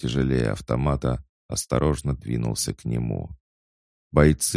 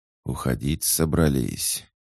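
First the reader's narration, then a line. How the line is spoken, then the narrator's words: Hissing. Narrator (Russian): прошипел Кравцов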